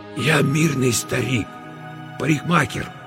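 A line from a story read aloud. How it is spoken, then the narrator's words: Strained hoarse whisper. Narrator (Russian): хриплым шепотом выдавил Мосес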